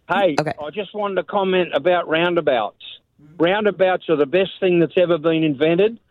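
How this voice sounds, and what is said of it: Speaks with a noticeable accent. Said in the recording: “Don't laugh at my accent today. ... No, I love your accent. I've never laughed at your accent. I find it alluring.”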